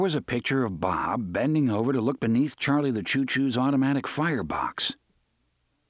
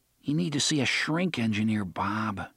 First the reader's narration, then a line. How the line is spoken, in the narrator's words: Jake murmured